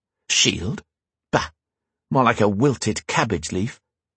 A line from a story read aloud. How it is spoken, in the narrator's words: Just loud enough that Gareth could hear, but not the king, Grian muttered